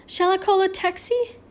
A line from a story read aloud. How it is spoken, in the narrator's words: Hunt in a shocked voice